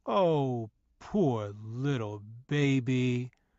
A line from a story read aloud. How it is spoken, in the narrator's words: Mother sarcastically cooed